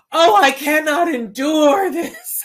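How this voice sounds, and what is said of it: Overly theatrical dramatic voice. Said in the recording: “did the best Sarah Bernhardt impersonation I've ever seen in my life”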